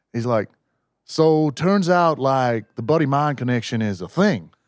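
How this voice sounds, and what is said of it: Put-on deep Southern US accent. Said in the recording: “that's a deep South American accent... He was a Texan, obviously.”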